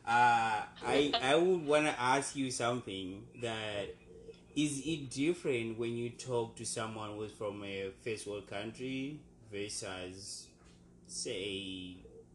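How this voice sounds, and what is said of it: Non-native English accent. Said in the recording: “as someone who is from a third world country, people should tell by my accent, of course.”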